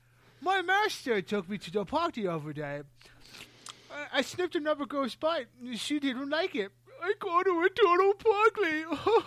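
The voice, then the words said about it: Really bad British accent. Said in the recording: “I'd do, like, a really, really bad British accent when I used to tell a joke”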